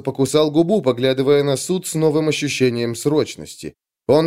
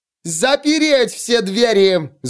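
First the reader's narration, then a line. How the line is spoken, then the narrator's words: Yelled. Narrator (Russian): завопила она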